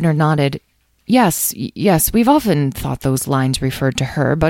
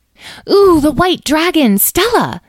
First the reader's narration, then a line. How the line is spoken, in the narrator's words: exclaimed Edwin